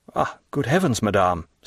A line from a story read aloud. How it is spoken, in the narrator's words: said the Count